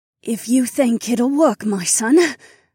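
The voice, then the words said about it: Raspy old woman's voice. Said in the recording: “she said in a raspy voice.”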